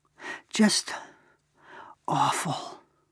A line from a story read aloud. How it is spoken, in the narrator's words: my father whispered